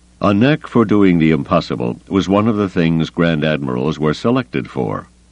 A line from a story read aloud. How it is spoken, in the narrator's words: Carda said dryly